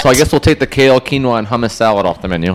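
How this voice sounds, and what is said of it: Sarcastic delivery. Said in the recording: “I'm totally being sarcastic”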